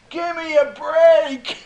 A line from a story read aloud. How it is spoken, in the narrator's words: he's hollering